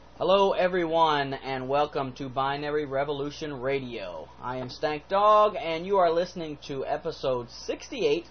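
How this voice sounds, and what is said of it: Sick, under-the-weather voice. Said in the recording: “my voice sounds funny or I sound like I'm a little under the weather, it's because I am ... not to cough into the microphone ... I'm sick”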